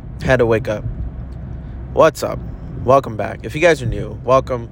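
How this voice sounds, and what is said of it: Rough, croaky morning voice. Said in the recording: “my voice is literally sounding disgusting early in the morning after I wake up”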